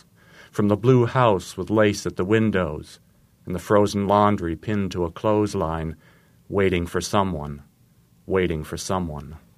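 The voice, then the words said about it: Slight Maine accent. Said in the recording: “I can hear a little of the Maine in this. ... I haven't completely lost my accent.”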